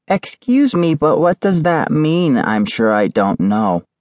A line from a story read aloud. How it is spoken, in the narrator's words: piped up Eleanor, age 8